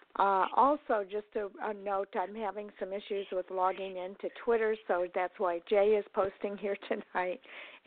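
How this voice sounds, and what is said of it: Husky, congested voice. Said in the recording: “my voice is a little bit husky today, I guess, because for whatever reason, I'm having a lot of sinus issues here.”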